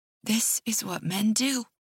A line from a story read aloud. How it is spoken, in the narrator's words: I say softly